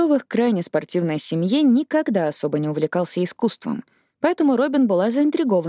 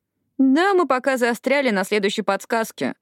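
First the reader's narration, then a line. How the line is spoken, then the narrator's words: Cheerful. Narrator (Russian): бодро подала голос Эшли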